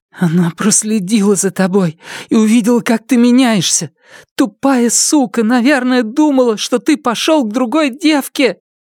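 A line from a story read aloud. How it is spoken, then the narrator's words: Hollow, desperate voice. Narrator (Russian): Глухим, отчаянным голосом она сказала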